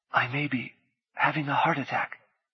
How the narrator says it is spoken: she whispered

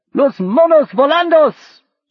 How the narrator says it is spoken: shouted one of the tribe

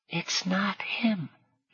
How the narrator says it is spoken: Galli said in a loud whisper

